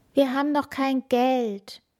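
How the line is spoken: Groaning. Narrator (German): stöhnte Kaspar

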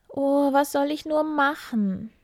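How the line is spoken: Sobbing. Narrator (German): sagte sie und schluchzte

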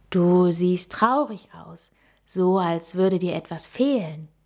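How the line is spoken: Calm owl explaining. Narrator (German): erklärte die Eule mit ruhiger Stimme

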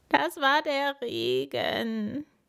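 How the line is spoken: Sobbing. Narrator (German): schluchzt Paul

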